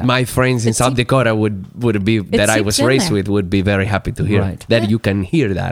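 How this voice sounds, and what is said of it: South Dakota accent. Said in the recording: “I think that guy's from South Dakota.”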